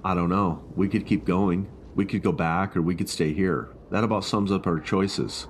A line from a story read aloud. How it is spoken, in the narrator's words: I said